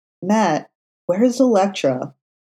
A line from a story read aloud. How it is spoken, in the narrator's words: Foggy asked, struggling to keep his voice even